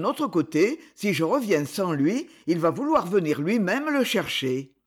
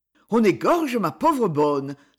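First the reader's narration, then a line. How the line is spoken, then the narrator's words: Priest's terrified cry. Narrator (French): s'écria le curé avec terreur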